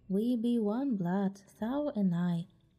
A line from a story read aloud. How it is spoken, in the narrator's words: Mowgli answered